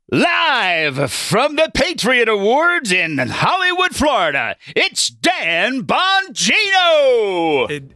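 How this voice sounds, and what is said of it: 1960s game show announcer voice. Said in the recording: “Worst 1960s game ... 60s game show voice.”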